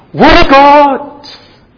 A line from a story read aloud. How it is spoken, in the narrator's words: they sing and they shout for joy and they say to each other